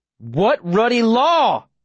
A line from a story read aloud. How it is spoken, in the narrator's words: I yell